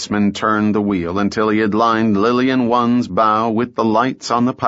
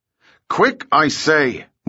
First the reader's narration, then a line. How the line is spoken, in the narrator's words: roared the captain